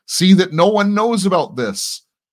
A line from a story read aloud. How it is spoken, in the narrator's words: Jesus sternly warned them, saying